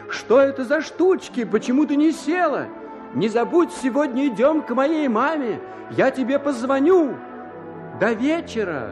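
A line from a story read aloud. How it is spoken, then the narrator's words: Young man shouting through window. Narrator (Russian): человеку, который назывался юношей, и который кричал в окно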